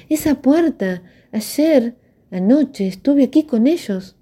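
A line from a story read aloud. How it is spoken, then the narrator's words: Triumphant exclamation. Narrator (Spanish): Dionisia exclamó triunfante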